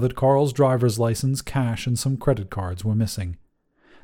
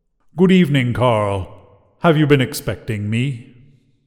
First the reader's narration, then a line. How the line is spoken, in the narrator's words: His voice was beautifully melodious, but still chilled the man to the marrow